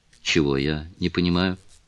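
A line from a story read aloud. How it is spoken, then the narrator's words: Gentle question. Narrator (Russian): мягко спросил лорд Мельбурн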